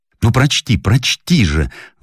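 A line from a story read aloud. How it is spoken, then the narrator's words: Clumsy guest exclaiming. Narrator (Russian): воскликнул неповоротливый гость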